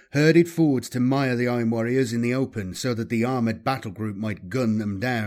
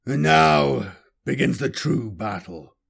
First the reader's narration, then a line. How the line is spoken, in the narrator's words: Ironclaw snarled, blood rising in expectation of what was to come